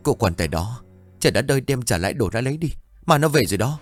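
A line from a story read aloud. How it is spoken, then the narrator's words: Trembling repetition. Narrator (Vietnamese): Kiểm run rẩy lặp lại câu nói ban nãy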